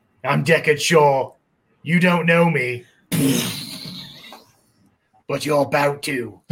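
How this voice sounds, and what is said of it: Jason Statham impression. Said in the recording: “that was an impeccable impression as well ... My Statham is spot on.”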